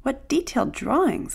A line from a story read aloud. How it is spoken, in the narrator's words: they exclaimed